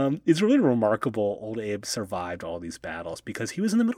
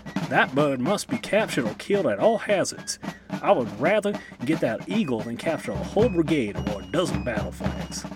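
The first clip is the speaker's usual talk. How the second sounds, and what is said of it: Put-on American Southern accent. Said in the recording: “my southern accent comes into use in this episode”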